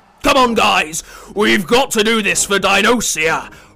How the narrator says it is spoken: roared Timmy the T-Rex in the changing room

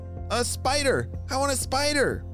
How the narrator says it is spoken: shouted Mikey

